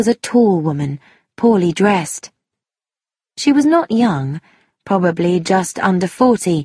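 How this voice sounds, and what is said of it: Usual voice. Nothing is said of it.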